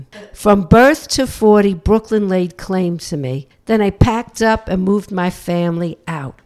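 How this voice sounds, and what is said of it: Brooklyn accent. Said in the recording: “everybody keeps talking about my accent, and they keep asking me, where am I from? ... That Girl from Brooklyn”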